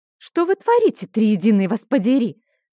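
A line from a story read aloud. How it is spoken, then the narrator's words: Hissed. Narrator (Russian): зашипела я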